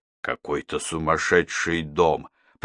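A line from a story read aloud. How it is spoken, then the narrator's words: Muttered. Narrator (Russian): пробормотал Арнольд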